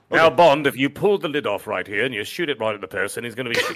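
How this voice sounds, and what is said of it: Put-on British accent. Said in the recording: “I better not do a British accent”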